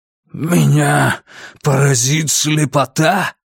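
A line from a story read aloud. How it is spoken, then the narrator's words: Growling prayerful, slightly raised. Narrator (Russian): Рычащий молитвенный голос Лестера чуть поднялся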